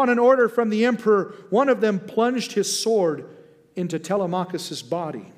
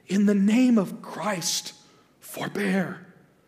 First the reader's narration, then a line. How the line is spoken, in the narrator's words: Telemachus pleaded